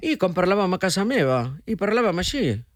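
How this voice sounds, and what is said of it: Catalan spoken with Argentine accent. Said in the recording (Catalan): “Ets capaç de parlar en català amb accent argentí?”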